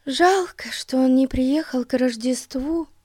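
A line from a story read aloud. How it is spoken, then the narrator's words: Sighing. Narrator (Russian): вздохнула Дейзи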